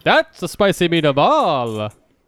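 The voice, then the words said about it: Jim Carrey's The Mask impression. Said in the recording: “I was doing an impression of The Mask, actually, not another race ... Jim Carrey's The Mask, yeah, exactly.”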